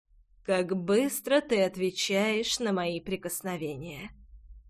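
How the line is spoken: Hoarse breathy exhale. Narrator (Russian): Хрипло выдохнул он

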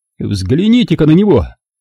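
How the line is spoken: Shouted. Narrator (Russian): крикнул Мейсон

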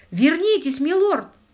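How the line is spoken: Terrified shout. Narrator (Russian): в ужасе закричал камердинер

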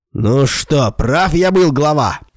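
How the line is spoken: Shouted. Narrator (Russian): крикнул Мил Симдяну

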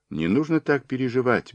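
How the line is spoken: Soft gentle request. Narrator (Russian): мягко попросила она

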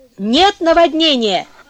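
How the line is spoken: Shouting. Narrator (Russian): крикнула она Бруно

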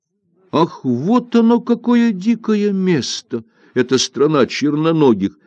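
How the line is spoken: Exclamation. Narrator (Russian): воскликнул Тан-Ао

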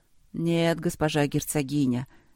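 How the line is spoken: Sedate, slightly sleepy. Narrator (Russian): степенно и чуть сонно отвечал военный

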